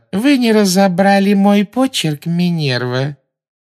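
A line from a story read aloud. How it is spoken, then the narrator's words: Unctuous question. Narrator (Russian): спросила Амбридж елейным тоном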